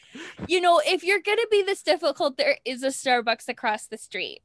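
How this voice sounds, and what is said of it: High-pitched cartoonish customer service voice. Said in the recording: “You sound like a cartoon ... You sound completely different ... That's a customer service voice ... my normal customer service voice, which is like up here”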